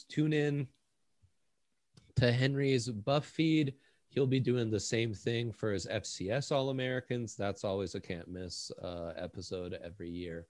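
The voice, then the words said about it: Dry sarcastic delivery. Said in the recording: “I'm being sarcastic... said in a really dry voice.”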